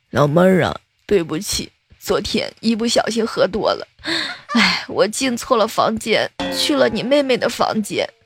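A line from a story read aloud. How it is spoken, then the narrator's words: Drunk, crying. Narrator (Chinese): 男的明显是喝高了，哭着对那个女孩说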